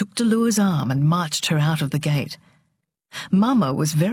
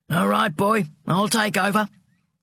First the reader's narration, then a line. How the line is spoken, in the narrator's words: said gruffly